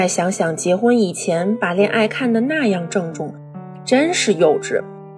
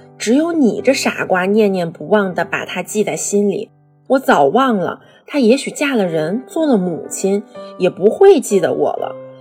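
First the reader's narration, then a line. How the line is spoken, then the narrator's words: Sighing. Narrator (Chinese): 他叹口气道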